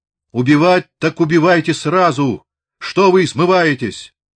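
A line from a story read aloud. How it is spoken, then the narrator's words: Shout. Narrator (Russian): Высокий, бравый красногвардеец из низовских крикнул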